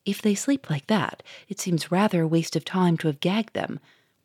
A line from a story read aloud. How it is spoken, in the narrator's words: whispered the Duke to the inspector